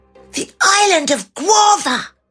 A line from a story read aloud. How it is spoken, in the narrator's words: Edward cried